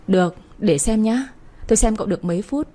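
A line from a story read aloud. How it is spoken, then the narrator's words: Laughing. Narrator (Vietnamese): Chị Phương bật cười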